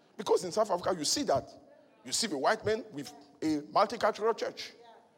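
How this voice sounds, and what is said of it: Accent some listeners find hard to follow. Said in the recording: “you don't understand my accent”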